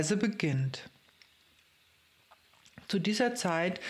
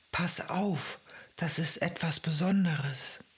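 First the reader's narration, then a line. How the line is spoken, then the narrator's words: Inner whisper. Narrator (German): Etwas tief in meinem Inneren flüsterte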